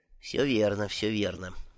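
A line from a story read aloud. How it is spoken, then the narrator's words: Mutter. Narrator (Russian): только и пробормотал он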